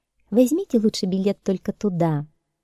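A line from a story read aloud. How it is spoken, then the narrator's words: Soft, gentle. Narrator (Russian): мягко сказала она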